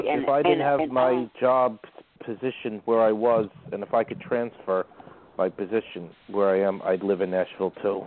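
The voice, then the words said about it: Brooklyn accent. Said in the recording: “I was born in Brooklyn, and everywhere I go, they could tell that I was from Brooklyn. ... I noticed an accent”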